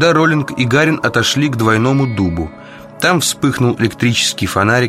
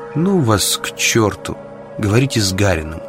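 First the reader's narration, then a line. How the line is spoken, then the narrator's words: Quiet. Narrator (Russian): Так же тихо Зоя ответила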